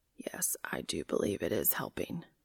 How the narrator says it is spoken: he whispers

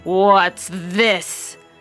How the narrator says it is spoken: growled the father bear in his great big voice

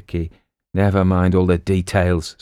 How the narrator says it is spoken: sighed Sergeant Dickinson

